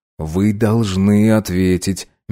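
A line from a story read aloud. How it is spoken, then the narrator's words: Doctor, soft but insistent. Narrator (Russian): мягко надавил врач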